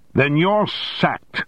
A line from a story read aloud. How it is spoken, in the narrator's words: shouted Armstrong